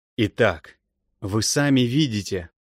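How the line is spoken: Forced firm voice, strained smile. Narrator (Russian): сказал я сколько мог твердым голосом и с принужденной усмешкой

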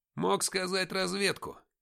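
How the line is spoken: Displeased grumble. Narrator (Russian): недовольно пробурчал Никита

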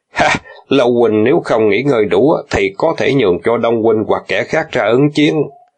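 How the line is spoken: Laughing loudly. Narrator (Vietnamese): Ngôn Phục cười lớn nói

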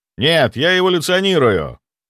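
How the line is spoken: Barked retort. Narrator (Russian): рявкнул в ответ

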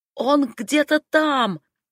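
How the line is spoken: Yell. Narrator (Russian): завопила я

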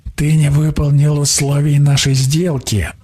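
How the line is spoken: Hiss. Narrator (Russian): прошипел маг

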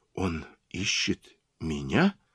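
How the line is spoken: Near whisper. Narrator (Russian): почти прошептала она

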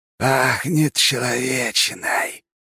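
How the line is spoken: Demonic hiss. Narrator (Russian): прошипел демон с раздвоенным языком

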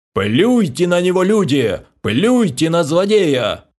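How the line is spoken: Tragic wailing. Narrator (Russian): Трагично завопил придворный

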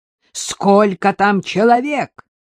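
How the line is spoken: Sudden bark. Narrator (Russian): рявкнул Прохоров неожиданно

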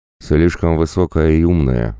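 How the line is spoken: Sighing. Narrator (Russian): вздохнул

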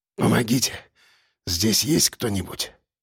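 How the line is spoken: Dry hoarse rasp. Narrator (Russian): Сальников разлепил пересохшие губы и прохрипел

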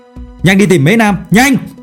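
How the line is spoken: Shouted. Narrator (Vietnamese): Phương Mộc liền hét lớn

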